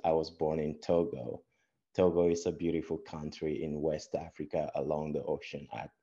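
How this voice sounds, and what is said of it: West African accent. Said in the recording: “Don't let my accent fool you”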